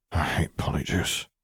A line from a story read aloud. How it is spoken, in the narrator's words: Harry muttered